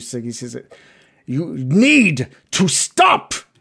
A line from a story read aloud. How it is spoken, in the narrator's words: He yells in response to that